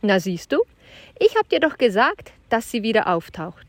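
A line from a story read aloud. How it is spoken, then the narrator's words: Laughing. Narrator (German): lachte Tertius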